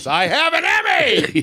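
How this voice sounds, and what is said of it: Screaming. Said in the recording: “what he's screaming at the radio”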